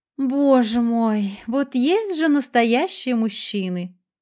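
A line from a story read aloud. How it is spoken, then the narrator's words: Admiring sigh. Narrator (Russian): тут же вздохнула та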